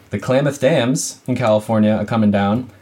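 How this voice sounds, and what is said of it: Boston accent slipping out. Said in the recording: “Ew, that was a Boston accent slipping out.”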